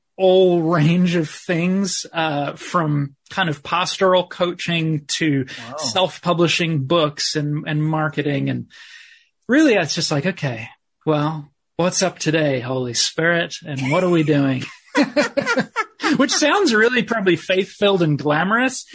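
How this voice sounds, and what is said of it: Slight New Zealand accent. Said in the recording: “I thought I detected a bit of an accent. So I'm glad that you said that you had time in New Zealand. So I wasn't just hearing things.”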